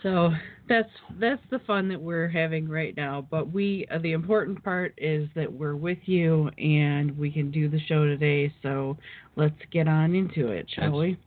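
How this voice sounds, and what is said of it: Hoarse, fading voice. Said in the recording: “I'm losing my voice again. This is the third week in a row, I think, that we get on here and I start losing my voice.”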